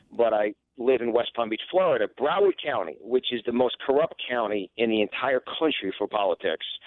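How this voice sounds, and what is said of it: New York accent. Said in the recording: “I'm obviously my accent. I'm born and raised in New York originally.”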